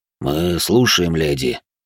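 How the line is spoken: Deep bass voice. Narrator (Russian): пробасил Кассиди

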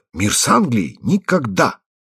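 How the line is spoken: Agitated exclamation, empress. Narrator (Russian): императрица, обычно весьма миролюбивая, подняв в волнении руки, воскликнула

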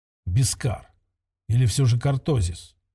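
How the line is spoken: Whispered. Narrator (Russian): прошептал он сначала

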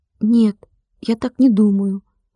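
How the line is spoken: Timid. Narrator (Russian): робко подал голос Владик

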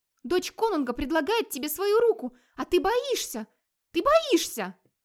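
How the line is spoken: Inspired exclamation. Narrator (Russian): воодушевленно воскликнула Ингерид

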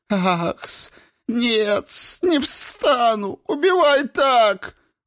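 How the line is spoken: Sobbing plea. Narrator (Russian): рыдал Хис

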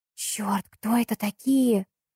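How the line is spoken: Hissing. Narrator (Russian): прошипела Саша

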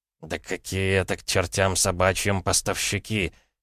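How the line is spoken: Forced through clenched teeth. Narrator (Russian): сквозь зубы процедил Томаш, сжав губы

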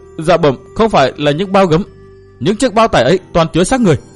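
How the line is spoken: Shaken soldier, forced calm. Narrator (Vietnamese): Tên quân vẫn còn run rẩy, hắn cố lấy lại được bình tĩnh thưa

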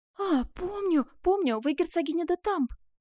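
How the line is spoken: Crying out. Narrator (Russian): вскрикнула

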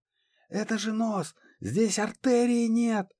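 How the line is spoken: Yelling. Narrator (Russian): Завопил Стеча

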